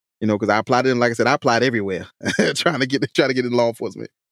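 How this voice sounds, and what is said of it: Southern US South Carolina accent. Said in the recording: “how the hell did you get by with your accent in New Jersey? ... everybody loved my accent in Jersey ... South Carolina ... I can tell you country”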